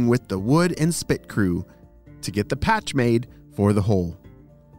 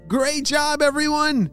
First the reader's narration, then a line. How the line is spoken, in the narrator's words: shouted Apollo